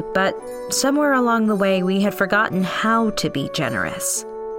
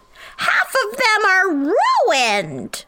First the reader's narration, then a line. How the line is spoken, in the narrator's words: From the next house over, I heard yell